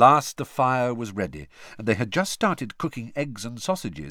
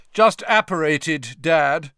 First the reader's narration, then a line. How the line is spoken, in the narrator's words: said Percy loudly